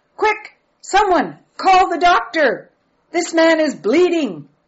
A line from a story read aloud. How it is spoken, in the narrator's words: someone hollered out in Afrikaans